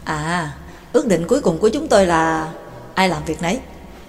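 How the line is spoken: Self-mocking voice. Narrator (Vietnamese): McGinn nói bằng một giọng tự giễu

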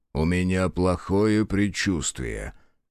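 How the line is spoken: Gloomy reply. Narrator (Russian): мрачно ответил Феллер

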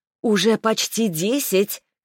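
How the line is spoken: Shouted from afar. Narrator (Russian): крикнула из кафе Тамара, новый бариста

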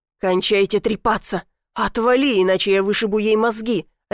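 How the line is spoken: Barking angry shout. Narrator (Russian): рявкнул Ар

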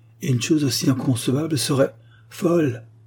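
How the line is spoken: Exclamation. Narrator (French): s'écria le commandant

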